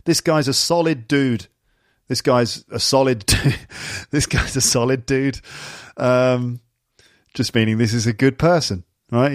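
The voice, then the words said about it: English accent. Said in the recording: “it sounds funny when I say it in my English accent”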